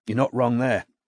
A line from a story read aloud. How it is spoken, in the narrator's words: sighed Gemma